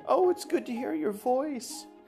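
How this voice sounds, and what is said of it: Sweet elderly grandma voice. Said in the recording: “My best grandma voice right now.”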